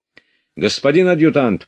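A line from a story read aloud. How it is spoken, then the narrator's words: Shouted. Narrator (Russian): прокричал он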